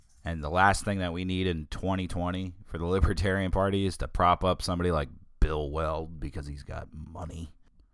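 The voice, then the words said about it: Wrecked, strained voice. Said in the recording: “my voice has been wrecked today”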